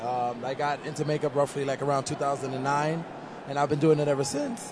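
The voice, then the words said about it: Hoarse, strained voice. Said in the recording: “Losing my voice here. ... All the screaming I've been doing”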